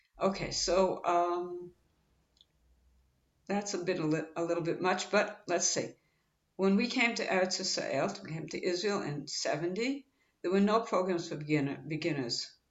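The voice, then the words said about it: Slightly sick-sounding voice. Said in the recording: “I have a little bit of a cold ... if I sound like I have an Israeli accent”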